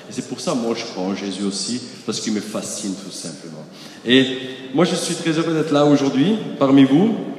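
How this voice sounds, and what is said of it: Austrian-accented French. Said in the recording (French): “Vous avez un accent bizarre devant vous... au ciel, on parle autrichien”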